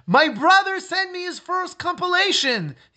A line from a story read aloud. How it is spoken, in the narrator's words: he called out